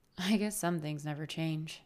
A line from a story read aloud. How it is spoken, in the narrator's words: I said with a sigh